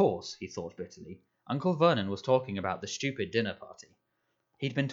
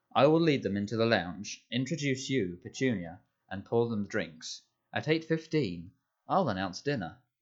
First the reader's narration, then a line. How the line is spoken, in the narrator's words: said Aunt Petunia